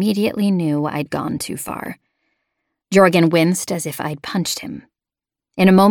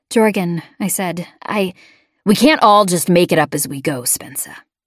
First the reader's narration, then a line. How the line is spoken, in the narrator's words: he said, his voice cold